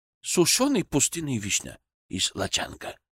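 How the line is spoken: Near whisper. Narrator (Russian): почти шепотом ответил Набиль

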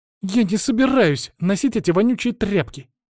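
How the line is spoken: Indignant snort. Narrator (Russian): Возмущенно фыркнула она

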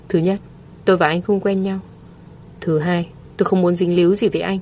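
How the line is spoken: Cold. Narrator (Vietnamese): Mộ Thiên Thanh lạnh lùng nói

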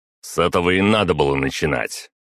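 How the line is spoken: Bark. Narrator (Russian): рявкнул я

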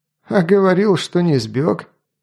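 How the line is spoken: Old mercenary snorting. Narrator (Russian): хмыкнул старый наемник

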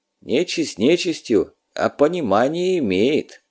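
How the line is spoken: Sighing. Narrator (Russian): вздохнул

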